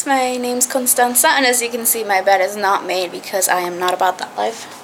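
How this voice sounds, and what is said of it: American accent. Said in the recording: “as you may have been able to tell from my accent, I am American”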